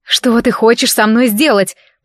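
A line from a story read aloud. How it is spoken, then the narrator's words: Growling. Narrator (Russian): прорычала я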